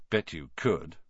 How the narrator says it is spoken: Ron muttered

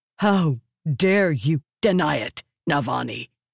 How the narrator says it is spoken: he snapped

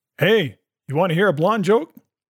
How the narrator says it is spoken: he yells to the bartender

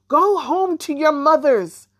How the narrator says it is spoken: Then she yelled across the room

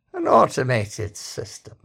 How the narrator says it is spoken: he said, and gave a small sigh

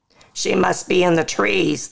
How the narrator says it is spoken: the guard yells

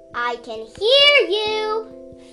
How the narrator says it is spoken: Fritillary shouted from his nest

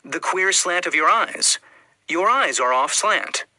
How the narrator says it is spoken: the Chinaman exclaimed

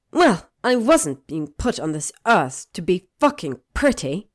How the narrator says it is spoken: Hermione spat, her temper fully ignited

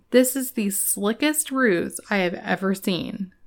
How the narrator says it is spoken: said Houdini

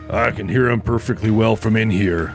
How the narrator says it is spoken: Bill muttered

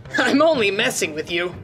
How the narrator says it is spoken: Darunia chuckled

